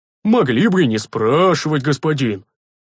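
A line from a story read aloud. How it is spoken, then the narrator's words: Offended deep bass, big man. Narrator (Russian): обиженно пробасил здоровяк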